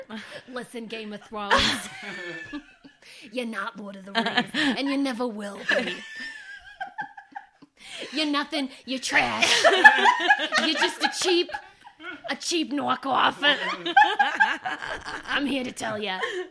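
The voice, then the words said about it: Put-on Jersey accent. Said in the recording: “Tell them they're not Lord of the Rings in a Jersey accent”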